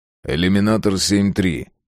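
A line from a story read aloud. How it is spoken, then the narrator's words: Booming officer. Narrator (Russian): прогудел офицер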